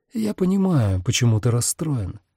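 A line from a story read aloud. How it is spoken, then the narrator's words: Spoken softly. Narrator (Russian): мягко проговорил Рос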